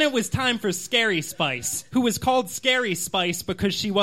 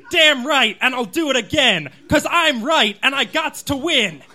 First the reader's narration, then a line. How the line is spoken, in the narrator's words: shouted to the sky